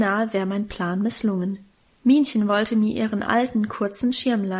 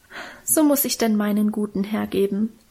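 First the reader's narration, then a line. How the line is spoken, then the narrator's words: Moved sigh. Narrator (German): seufzte Minchen und schien selber gerührt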